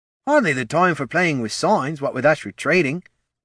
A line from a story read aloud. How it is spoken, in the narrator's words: grumbled Ned